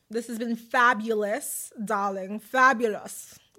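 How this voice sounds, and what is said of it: Put-on posh bougie accent. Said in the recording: “What accent is that? ... it's giving ... Bouge, Bougie, bouge, if we will, Bougetta”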